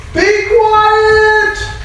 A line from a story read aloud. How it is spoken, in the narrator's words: Many of the people yelled at him